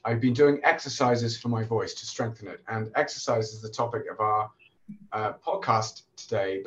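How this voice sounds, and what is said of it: Slightly hoarse voice. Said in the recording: “You may not recognize my voice from before because I'm just recovering from a COVID infection, so my voice is a bit hoarse.”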